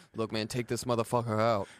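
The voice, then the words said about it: Imitates another person's voice. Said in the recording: “my Coach T impression”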